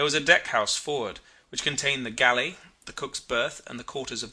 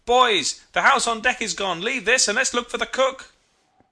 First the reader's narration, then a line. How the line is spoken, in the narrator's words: Suddenly it dawned upon me, and I shouted